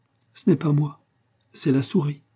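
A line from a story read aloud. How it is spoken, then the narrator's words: Tender laughing murmur. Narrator (French): murmura-t-elle avec un joli petit rire plein de tendresse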